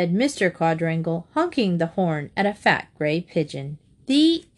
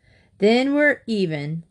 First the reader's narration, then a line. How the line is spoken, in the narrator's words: laughed Mr